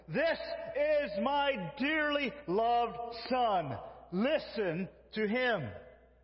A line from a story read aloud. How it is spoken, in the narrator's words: a voice came from the cloud and shouted